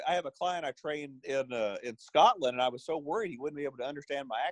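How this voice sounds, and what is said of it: Soothing Arkansas Southern accent. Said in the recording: “love your accent ... maybe the Arkansas thing that is, it's, um, I don't know, it's, it's soothing and, and, and it's, and it's, um, it seems real authentic”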